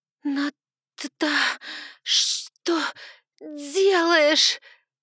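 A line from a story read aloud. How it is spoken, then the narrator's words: Forced out, strained. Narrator (Russian): выдавила из себя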